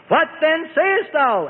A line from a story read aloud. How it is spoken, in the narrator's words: Antipas bellowed